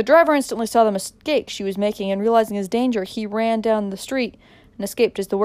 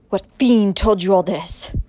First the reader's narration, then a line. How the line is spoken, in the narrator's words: gasped hoarsely